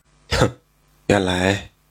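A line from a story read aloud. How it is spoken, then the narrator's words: Stunned murmur. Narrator (Chinese): 刘生听得惊呆了，喃喃地说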